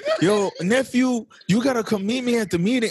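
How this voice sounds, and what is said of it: Bad Shia LaBeouf Cholo accent. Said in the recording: “I'm talking like Shia LaBeouf. This isn't a bad Cholo accent. ... It's a bad Shia LaBeouf accent. ... another bad impression.”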